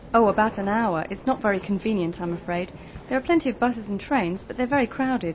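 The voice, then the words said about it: British English accent. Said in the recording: “Your accent's very different from theirs ... Is British English more difficult to understand than American English?”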